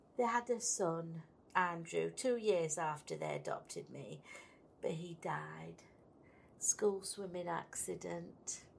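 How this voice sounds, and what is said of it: Yorkshire accent. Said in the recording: “It's the accent. Yorkshire.”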